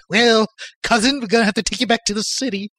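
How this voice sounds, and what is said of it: Cartoon character voice. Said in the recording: “Or like the City Wolf from Tex Avery cartoons.”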